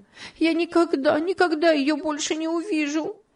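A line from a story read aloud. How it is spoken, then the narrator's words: Sobbing. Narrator (Russian): И она зарыдала вновь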